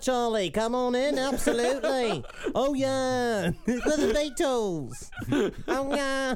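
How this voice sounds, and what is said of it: Put-on Liverpool accent. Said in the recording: “That's a good one. Yeah, that's a good accent. ... Liverpool. ... Liverpudlian, yeah.”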